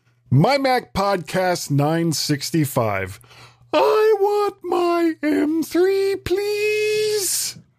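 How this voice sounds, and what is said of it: Exaggerated high-pitched voice. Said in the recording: “high register ... do a high bitch voice”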